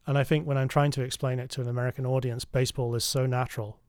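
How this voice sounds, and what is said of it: Non-American foreign accent. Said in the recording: “you can tell from my accent I'm not from around this part of the world”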